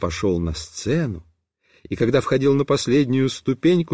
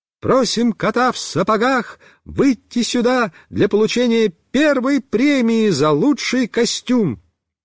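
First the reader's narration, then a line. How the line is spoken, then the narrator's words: Ringing voice. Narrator (Russian): наша вожатая Люся сказала звонким голосом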